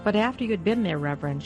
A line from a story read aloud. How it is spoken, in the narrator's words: she said